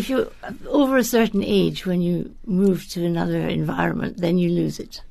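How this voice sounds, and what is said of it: Scottish accent. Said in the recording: “you haven't lost the Scottish accent after so long ... I was born Scottish ... my accent ... it just comes out that way”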